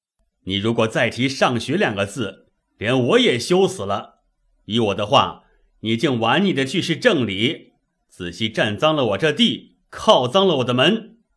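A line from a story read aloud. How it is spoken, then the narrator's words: Cold sneer. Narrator (Chinese): 贾政冷笑道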